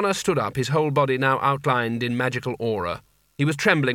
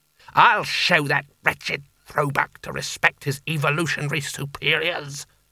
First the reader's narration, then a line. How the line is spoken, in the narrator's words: he snarled